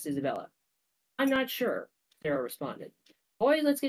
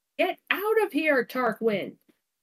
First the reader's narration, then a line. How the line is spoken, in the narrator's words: Isabella shouted